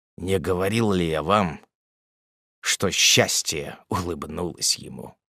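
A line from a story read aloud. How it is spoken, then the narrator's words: Quiet. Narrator (Russian): он тихо произнес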